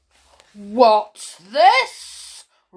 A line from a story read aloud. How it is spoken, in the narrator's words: roared Plodalong suddenly